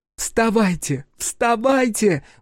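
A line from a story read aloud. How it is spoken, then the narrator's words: Wailing. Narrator (Russian): взвыла Торью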